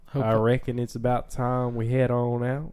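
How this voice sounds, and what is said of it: Bad put-on Western cowboy accent. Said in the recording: “That's a really bad redneck accent. ... I'm doing Western. ... Cowboy. ... It's still a bad one. ... Yeah, it's pretty bad.”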